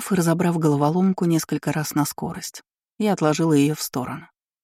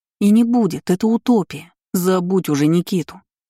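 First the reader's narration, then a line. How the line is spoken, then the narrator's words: Sharp inner bark. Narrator (Russian): рявкнул внутренний голос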